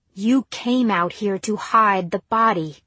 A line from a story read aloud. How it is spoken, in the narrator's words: snapped Angela